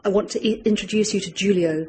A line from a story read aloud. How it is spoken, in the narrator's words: she said